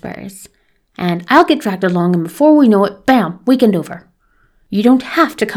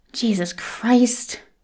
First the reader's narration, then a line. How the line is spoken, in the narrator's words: he mutters